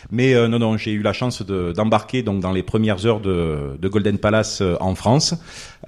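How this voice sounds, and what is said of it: Marseille French accent. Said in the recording (French): “originaire de Marseille. Bon, je pense que mon accent le trahit.”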